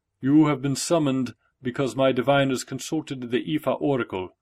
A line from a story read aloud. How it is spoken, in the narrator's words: Oba Aremola spoke in an even voice, just loud enough for Oludara to hear every word clearly